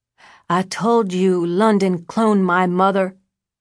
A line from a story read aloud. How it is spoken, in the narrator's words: Her voice was slow and slurred from Ambien